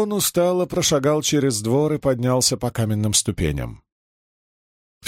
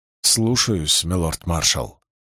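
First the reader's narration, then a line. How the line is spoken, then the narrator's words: Embarrassed young man mumbling. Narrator (Russian): сконфуженно пробормотал юноша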